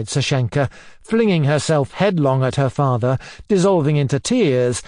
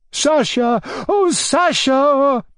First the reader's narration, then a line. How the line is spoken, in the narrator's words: cried in despair